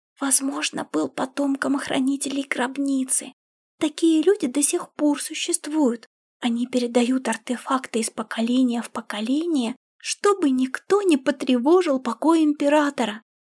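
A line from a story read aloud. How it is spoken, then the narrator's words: Whispering. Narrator (Russian): прошептала Сяо Линь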